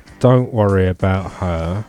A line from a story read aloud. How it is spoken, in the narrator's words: replied the female in a spectacularly slurred voice